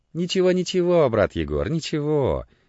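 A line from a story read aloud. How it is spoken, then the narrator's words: Rapid priestly mumbling. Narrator (Russian): забормотал скороговоркой отец Христофор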